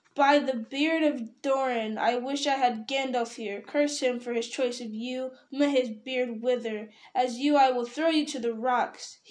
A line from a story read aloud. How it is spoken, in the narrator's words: he cried